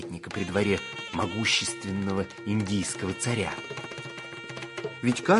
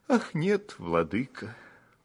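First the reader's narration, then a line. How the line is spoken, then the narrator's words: Sighing. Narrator (Russian): вздохнул Бирбал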